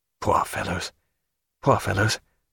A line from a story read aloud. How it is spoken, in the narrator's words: said Stephen in a low, inward voice